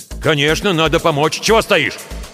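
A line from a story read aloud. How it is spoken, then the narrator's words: Snapping retort. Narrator (Russian): Огрызнулся барин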